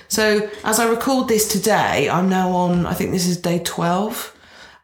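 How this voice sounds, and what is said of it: Congested, bunged-up voice. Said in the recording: “you can probably hear it in my voice. So I'm still very bunged up.”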